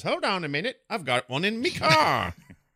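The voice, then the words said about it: Attempted British accent, not convincing. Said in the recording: “I don't know why I'm doing that voice. ... The accent you were doing wasn't really British”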